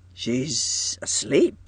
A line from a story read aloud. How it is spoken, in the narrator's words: he murmured in a puzzled way